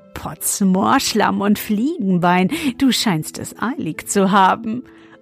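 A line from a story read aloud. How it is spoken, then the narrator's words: Laughing until choking. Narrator (German): er lachte, bis er sich verschluckte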